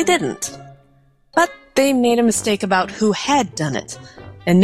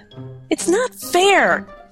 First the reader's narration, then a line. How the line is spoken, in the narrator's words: cried Maurice